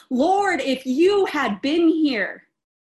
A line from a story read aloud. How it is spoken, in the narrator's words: practically yell